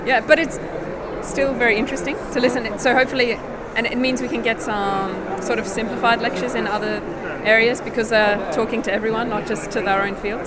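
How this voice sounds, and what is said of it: Australian accent. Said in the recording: “I'm originally from Australia ... you've got some different accent”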